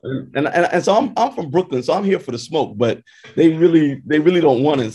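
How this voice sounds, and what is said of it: Brooklyn accent. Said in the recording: “couldn't hear from the accent”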